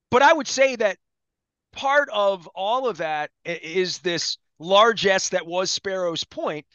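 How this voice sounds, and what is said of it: Baltimore Dundalk accent. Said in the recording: “I don't have to pretend my Dundalk accent. I have a real one.”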